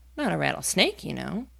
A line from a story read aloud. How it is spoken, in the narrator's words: she added hastily, thinking that he was frightened